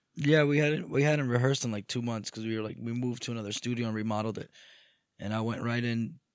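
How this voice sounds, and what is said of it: Strained, blown-out hoarse voice. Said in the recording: “I blew my voice out last Wednesday at band practice. That's why I sound kind of weird.”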